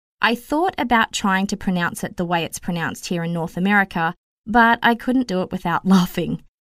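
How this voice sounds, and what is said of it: Australian accent. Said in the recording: “in Australia, we pronounce it Nissan... It was a product of my accent.”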